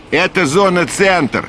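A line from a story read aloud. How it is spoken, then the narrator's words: Loud, over noise. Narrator (Russian): принц говорил громко, чтобы перекричать шум работ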